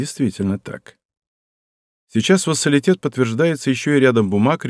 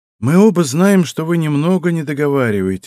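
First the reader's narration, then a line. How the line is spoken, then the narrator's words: Sighing. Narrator (Russian): вздохнул Тай Кинг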